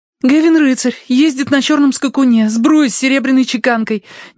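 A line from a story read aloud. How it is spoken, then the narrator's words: Rapid chatter. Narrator (Russian): тараторила Элевис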